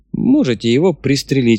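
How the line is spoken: Smirking snort. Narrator (Russian): хмыкнул Ким Петрович

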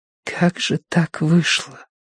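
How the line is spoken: Whisper. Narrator (Russian): прошептала Киеврин

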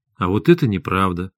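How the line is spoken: Calm. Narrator (Russian): спокойно сказал Максим

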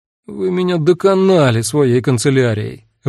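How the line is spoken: Sudden suffering voice. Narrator (Russian): вдруг сказал Иоганн Георг таким страдальческим голосом

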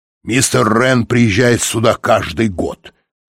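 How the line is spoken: Snort. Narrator (Russian): фыркнул Тибинг

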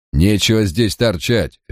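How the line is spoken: Harsh bark. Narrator (Russian): рявкнул он

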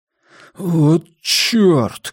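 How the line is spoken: Bewildered breathless exhale. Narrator (Russian): выдохнул он, растерянно

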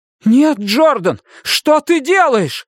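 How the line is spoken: Sharp cry. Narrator (Russian): вскрикнул Том

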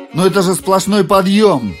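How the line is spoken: Exclaimed. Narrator (Russian): воскликнул Джордж

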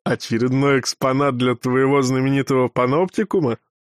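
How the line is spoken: Short laugh. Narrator (Russian): хохотнул Крепыш

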